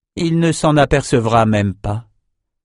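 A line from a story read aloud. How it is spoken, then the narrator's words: Sighed. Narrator (French): soupira Verna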